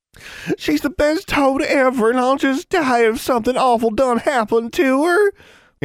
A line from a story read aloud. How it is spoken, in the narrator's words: Innocence wailed